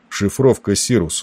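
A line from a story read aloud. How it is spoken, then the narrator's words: Calm command. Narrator (Russian): распорядился он спокойно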